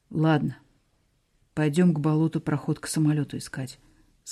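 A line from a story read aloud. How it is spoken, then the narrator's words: Dejected, sniffling. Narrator (Russian): сказал упавшим голосом и шмыгнул носом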